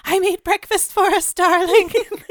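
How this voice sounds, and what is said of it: Shaky imitation of Eunice from She's the Man. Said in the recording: “Give us a Eunice voice from She's the Man ... she's got this weird sort of like shaky thing going on ... You do such a good Eunice.”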